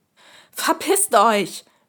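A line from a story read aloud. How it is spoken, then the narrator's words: Screaming. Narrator (German): schrie ich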